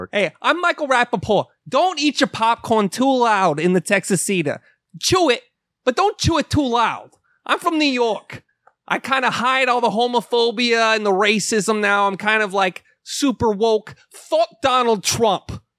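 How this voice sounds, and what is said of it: Imitates another person's voice, New York. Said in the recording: “Do an impersonation of fucking Michael Rapaport. ... Just talk about New York.”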